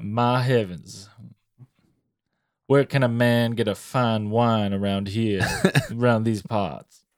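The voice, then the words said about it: Put-on slow Cajun Southern gentleman accent. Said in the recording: “you turn into a Cajun, deep Southern gentleman... It comes with the accent... You talk slow.”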